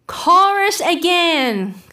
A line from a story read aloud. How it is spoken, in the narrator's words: cried the Gryphon